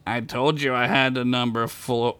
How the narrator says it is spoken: Flyman said with a sigh

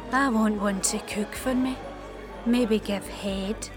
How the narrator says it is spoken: agreed and wistfully said

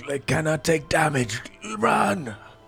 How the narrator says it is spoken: Thrax also yell like

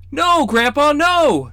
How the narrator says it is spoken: the green-haired siblings cried in unison

